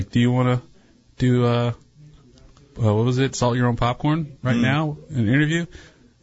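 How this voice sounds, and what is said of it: Timid voice imitating another person. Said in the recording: “that's a great Zafra impression. Just very timid.”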